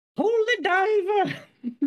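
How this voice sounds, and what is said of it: Imitates a cartoon character singing. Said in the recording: “I can't do a very good impression”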